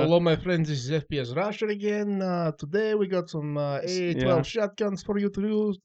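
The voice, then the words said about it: Fake Russian accent, FPS Russia. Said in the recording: “That accent was completely fake ... That was a Russian, and he liked his accent, so he started copying it”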